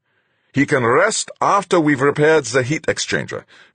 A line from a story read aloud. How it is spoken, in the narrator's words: Fuchs snapped